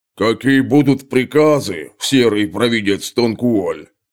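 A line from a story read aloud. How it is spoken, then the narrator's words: Deep bass voice. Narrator (Russian): пробасил самый здоровенный из них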